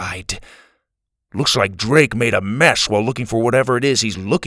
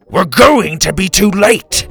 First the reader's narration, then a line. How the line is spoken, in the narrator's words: he roared